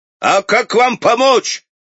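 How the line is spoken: Shouted. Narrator (Russian): крикнул он ему

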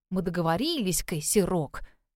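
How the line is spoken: Muttering. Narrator (Russian): бормотала я

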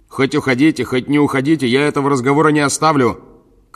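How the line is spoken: Shouted after someone. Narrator (Russian): крикнул ему вслед Петенька

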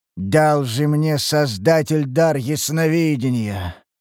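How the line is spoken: Weary sigh, heavy man. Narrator (Russian): вздохнул тучный мужчина, устало

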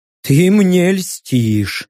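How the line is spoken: Snorting. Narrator (Russian): хмыкнул я

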